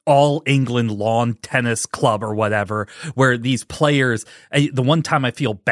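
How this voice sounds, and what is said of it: Usual voice. Nothing is said of it.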